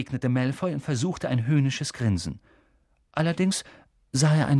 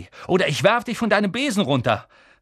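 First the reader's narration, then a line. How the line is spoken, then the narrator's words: Call. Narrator (German): rief Harry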